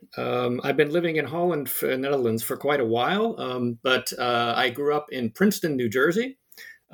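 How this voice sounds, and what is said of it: American accent. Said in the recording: “As you might notice from my accent, I'm actually American originally.”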